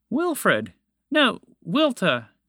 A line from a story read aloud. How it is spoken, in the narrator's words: blurted out